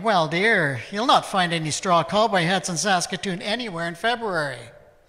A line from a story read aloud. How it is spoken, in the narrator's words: the clerk told me mockingly